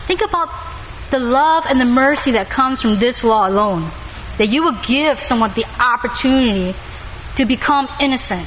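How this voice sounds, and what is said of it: Non-native English accent. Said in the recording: “my accent, and I was born with English being the second language”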